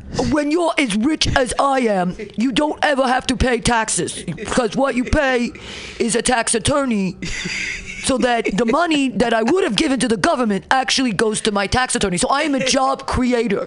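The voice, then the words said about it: Impression of the US president. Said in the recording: “Let me try to do his voice again ... the president of the United States”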